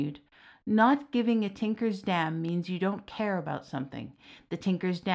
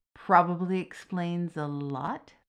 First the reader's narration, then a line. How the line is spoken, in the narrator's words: Lucas mused